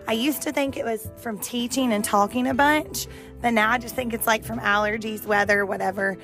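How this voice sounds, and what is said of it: Raspy, partly lost voice. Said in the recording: “my voice is a little raspy or gone today ... I lose my voice”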